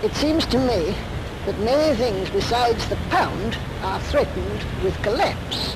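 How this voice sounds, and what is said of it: Light, high-pitched South London accent. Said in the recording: “very light, high-pitched South London accent”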